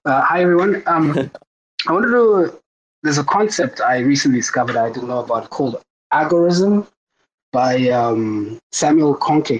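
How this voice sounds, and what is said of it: Hoarse, sick-sounding voice. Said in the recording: “My voice is a bit broken. I'm sick.”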